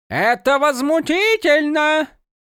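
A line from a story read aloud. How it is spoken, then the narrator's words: Shouted out. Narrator (Russian): выкрикнул кто-то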